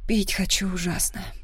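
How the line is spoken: Breathless exhale. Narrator (Russian): выдохнула

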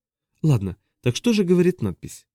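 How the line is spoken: Heavy sigh. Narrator (Russian): Силвест тяжело вздохнул

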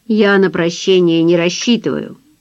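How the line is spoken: Plain. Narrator (Russian): сказал Фрэнсис

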